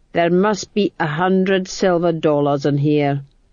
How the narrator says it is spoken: moaned Boggis

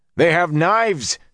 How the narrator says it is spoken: roared

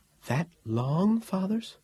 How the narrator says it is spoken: The Sibyl gasped and said

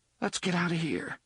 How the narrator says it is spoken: Jake said in a trembling voice

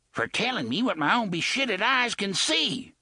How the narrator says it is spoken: Gasher yelled

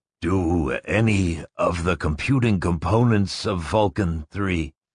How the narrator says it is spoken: Barris murmured weakly

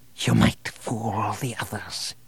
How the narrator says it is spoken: whispered

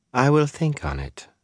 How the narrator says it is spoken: Fael said calmly

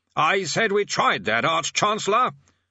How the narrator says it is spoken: said the bursar loudly, directing his voice at the old man's ear

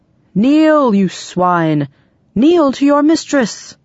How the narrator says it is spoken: He bellowed

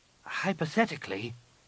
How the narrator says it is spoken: Nenyim said hesitantly

